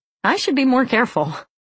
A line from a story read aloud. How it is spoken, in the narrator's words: She laughed, untroubled by the thought, and said